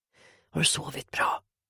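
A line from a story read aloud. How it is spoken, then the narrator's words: Whispering. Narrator (Swedish): viskar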